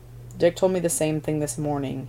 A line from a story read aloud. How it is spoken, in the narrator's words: he said, voice dropping nearly to a murmur